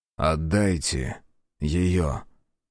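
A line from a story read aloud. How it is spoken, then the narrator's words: Calm. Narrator (Russian): спокойно сказал Азар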